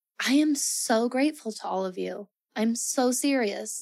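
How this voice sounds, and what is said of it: Emotional, teary, voice close to crying. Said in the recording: “I'm kind of getting a little bit, a little teary-eyed.”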